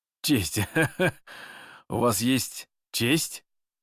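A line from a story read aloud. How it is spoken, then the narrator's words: Sincere laughter. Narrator (Russian): искренне рассмеялся Шишковский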